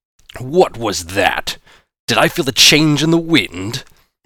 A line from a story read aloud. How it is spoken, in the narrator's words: the mutant blob thundered